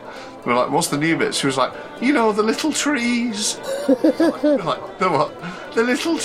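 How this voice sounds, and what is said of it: Usual voice. Nothing is said of it.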